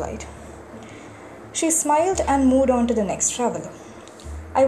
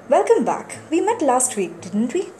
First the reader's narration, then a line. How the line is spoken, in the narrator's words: The attendant said brightly